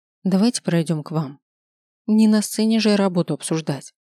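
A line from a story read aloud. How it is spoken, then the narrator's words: Tired suggestion. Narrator (Russian): устало предложила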